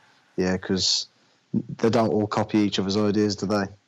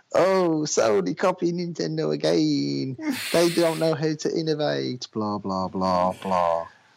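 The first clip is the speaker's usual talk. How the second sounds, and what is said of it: Impression of a Nintendo fanboy. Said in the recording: “my impression of Nintendo fanboys”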